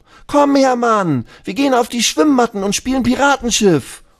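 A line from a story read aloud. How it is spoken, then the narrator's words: Calling out. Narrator (German): ruft Lulu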